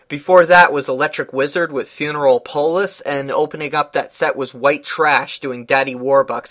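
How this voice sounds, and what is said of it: Nasal, sick-sounding voice. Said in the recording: “if I sound kind of nasally. I'm a little sick right now.”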